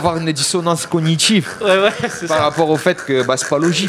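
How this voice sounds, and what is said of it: Southern French accent. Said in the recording (French): “l'accent du Sud”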